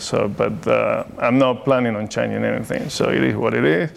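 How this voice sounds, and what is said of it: Non-native English accent. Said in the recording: “I still make mistakes, so and my accent is still here.”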